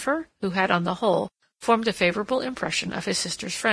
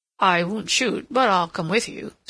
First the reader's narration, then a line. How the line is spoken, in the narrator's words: said Ralph